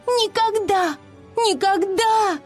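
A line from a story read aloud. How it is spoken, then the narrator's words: Desperate screaming. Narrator (Russian): В ответ на требование рассказать, где находится поселение Пикси, она отчаянно кричала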